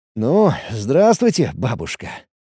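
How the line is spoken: Chuckling. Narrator (Russian): Я еще раз хохотнул

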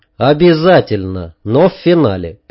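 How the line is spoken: Calm promise. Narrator (Russian): пообещал я спокойно

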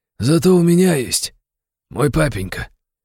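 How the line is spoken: Quiet but distinct. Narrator (Russian): негромко, но отчетливо сказал Гудини

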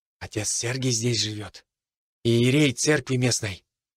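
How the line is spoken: Whisper. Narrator (Russian): шепотом сказал Иван

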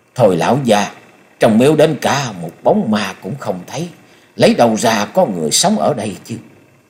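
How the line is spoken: Muttered grumbling. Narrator (Vietnamese): Lẩm bẩm chửi đổng mấy câu, Thôi Công Đức

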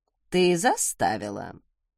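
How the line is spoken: Insinuating inquiry. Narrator (Russian): вкрадчиво поинтересовалась матушка

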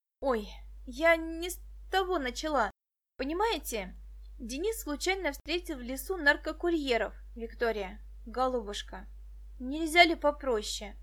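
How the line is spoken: Pleading. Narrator (Russian): взмолился Медынский

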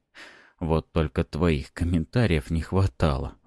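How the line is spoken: Sighing. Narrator (Russian): вздохнул я

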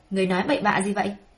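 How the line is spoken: Cold angry shout. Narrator (Vietnamese): Tĩnh Quốc Công bị ngôn từ ngả ngớn của nàng chọc giận, lạnh lùng quát lên

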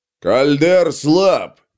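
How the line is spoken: Growling brute. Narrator (Russian): прорычал бородатый громила

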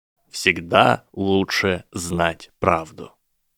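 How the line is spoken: Cold recitation. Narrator (Russian): холодно процитировал Драко

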